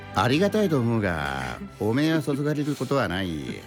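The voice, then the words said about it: Imitates another person's voice. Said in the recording (Japanese): “モノマネコーナー”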